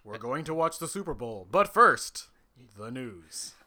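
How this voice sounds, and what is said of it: Mock newscaster voice. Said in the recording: “you can do your newsman voice ... I'm going to do my newsman voice”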